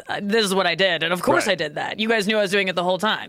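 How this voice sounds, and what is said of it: Imitates another person's voice. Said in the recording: “a good impression”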